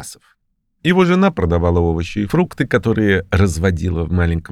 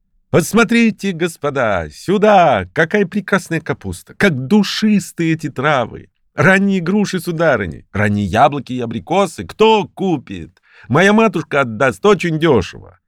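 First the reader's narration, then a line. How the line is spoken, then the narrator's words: Boy shouting. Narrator (Russian): Так кричал мальчик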